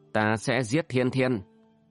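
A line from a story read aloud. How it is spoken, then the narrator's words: Gritted menacing repetition. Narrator (Vietnamese): Tử Nhân gằn giọng lặp lại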